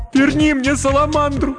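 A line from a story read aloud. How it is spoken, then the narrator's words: Sobbing plea. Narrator (Russian): рыдая, попросила Кирен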